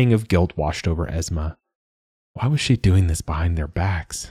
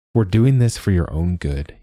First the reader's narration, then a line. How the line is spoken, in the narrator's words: he said